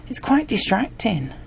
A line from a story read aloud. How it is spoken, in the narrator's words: she laughed